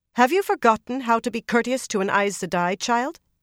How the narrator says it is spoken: she said sharply

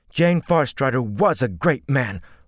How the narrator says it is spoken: Olver said fiercely

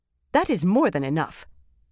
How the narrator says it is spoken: Kariandra snapped, right atop Egwene's last sentence

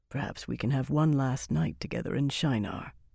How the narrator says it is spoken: he murmured softly

